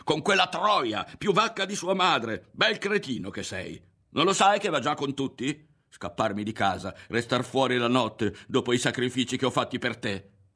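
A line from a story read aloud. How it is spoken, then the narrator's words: Woman screaming. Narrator (Italian): Mezza discinta, la donna urlava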